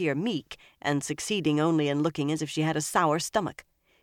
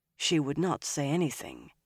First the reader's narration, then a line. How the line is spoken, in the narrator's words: Nynaeve muttered